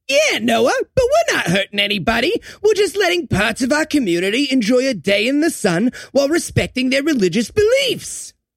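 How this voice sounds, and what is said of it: Exaggerated offensive Jewish accent. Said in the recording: “Jewish. ... That's a pretty offensive accent you got there”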